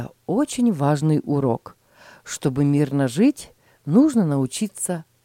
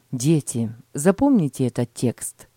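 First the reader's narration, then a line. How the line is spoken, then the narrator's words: Plain. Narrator (Russian): сказал отец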